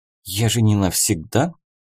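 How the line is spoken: Surprised girl's mutter. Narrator (Russian): удивленно пробормотала девушка

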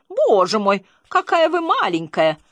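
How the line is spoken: Surprised exclamation. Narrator (Russian): она воскликнула удивленным тоном

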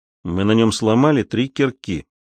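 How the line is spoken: Gloomy. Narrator (Russian): мрачно продолжал Ральф

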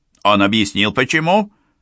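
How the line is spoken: Curt question. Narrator (Russian): отрывисто спросил Исмаил Бей

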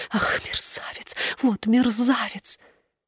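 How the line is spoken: Muttered. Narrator (Russian): Она бормотала

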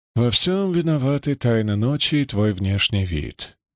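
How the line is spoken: Gentle remark. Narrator (Russian): мягко заметил

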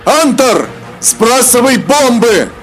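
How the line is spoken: Dragon exclaiming. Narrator (Russian): воскликнул дракон

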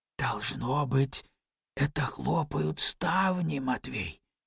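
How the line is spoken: Cautious whisper. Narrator (Russian): сказал он шепотом, боясь разбудить Ирве, спавшего за стеной

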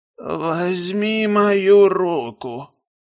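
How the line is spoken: Old man's hoarse weak voice. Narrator (Russian): произнес старец хриплым и слабым голосом

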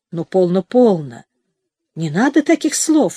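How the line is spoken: Soft. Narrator (Russian): мягко проговорил Хенчерт

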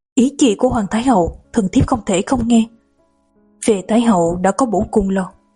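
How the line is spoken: Startled, quiet. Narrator (Vietnamese): Đổng Ngạc Phi sửng sốt nhỏ giọng

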